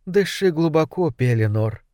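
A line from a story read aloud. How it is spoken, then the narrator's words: Whisper. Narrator (Russian): прошептала она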